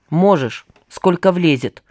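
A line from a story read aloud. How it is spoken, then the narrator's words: Grumbling mutter. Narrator (Russian): буркнул Пашка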